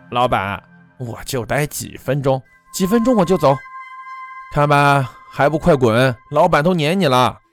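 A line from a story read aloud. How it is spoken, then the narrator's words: Smiling. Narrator (Chinese): 乞丐笑了笑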